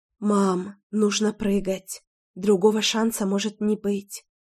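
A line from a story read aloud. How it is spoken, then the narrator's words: Soft whisper. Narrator (Russian): тихонько прошептала я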